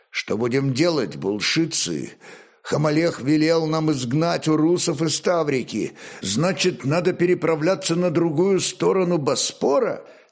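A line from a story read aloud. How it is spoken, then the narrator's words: Plain. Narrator (Russian): спросил начальник Ларисиев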